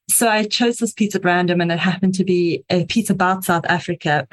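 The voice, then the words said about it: South African accent. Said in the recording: “I am South African, if you can hear the slightly strange accent.”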